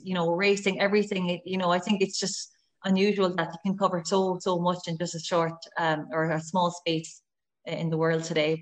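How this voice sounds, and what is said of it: Irish West Cork accent. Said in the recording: “your West Cork accent is still there. I can still hear your West Cork accent coming through”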